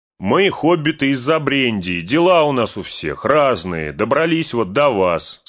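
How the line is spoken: Plain. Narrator (Russian): сказал Мэри

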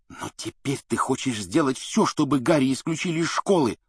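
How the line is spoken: Angry hiss. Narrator (Russian): зло прошипел Рон

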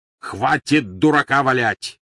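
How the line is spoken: Barking. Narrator (Russian): рявкнул Грюм

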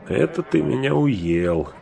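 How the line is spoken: Laughing along with others. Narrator (Russian): засмеялся с прочими и Сэм

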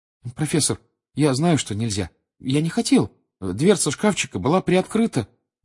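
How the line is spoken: Timid babbling. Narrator (Russian): пролепетал Гарри

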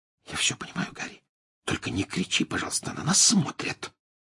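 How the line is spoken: Whispered. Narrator (Russian): прошептала Гермиона

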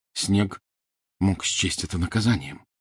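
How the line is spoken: Quiet. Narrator (Russian): негромко сказал Гарри

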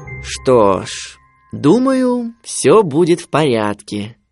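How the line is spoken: Father drawling. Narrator (Russian): протянул отец

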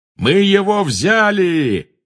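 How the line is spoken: Triumphant yell. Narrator (Russian): завопил пожиратель смерти

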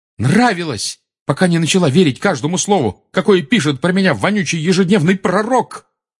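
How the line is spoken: Shouting, voice breaking. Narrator (Russian): крикнул Гарри срывающимся голосом

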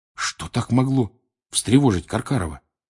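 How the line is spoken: Quiet question. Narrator (Russian): тихо спросил Рон

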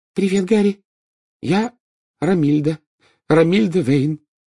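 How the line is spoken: Loud, confident. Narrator (Russian): сказала она громко и уверенно

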